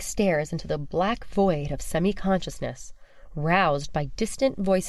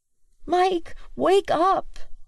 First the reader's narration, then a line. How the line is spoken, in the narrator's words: Willow pleads clearly